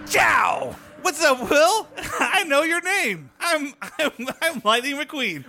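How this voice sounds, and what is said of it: Impression of Lightning McQueen. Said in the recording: “You're really putting a lot of effort into that impression”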